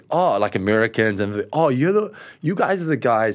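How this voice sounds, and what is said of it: Bad put-on American accent. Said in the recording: “this is a bad American accent, I apologize”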